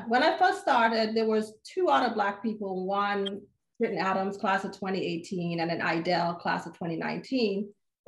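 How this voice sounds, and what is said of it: Slight Caribbean accent. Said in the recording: “I hear a little accent there ... I'm from the Caribbean. I was born in St. Kitts. I grew up in St. Thomas, Virgin Islands.”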